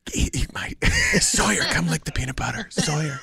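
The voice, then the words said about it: Impression of radio host Michael Ray. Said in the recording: “do the voice, that guy on the radio, Michael Ray.”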